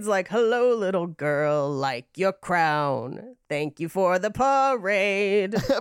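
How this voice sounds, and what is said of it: Andrea Gazzetta impression. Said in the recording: “I was about to do a perfect Andrea Gazzetta impression”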